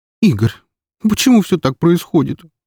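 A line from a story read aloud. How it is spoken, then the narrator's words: Sobbing. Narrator (Russian): всхлипнула девушка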